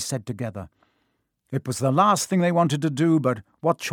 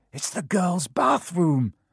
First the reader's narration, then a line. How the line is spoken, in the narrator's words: Harry gasped